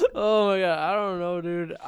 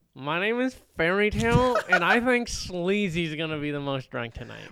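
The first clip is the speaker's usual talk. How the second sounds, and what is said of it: Nerdy-sounding put-on voice. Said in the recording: “Why do you sound like a nerd?”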